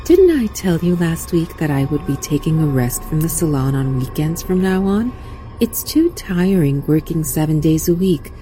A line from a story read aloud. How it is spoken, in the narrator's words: said calmly